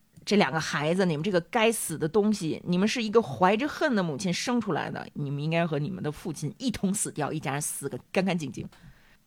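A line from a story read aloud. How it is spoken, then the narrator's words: Lamenting. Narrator (Chinese): 美迪亚继续的在这哀叹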